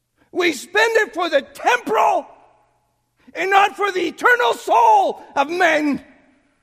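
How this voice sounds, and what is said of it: Loud, screaming preaching. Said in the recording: “quit screaming ... I know. I scream.”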